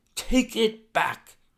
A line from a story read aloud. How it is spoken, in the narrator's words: he cried